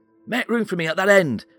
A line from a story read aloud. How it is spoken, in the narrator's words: shouted Norris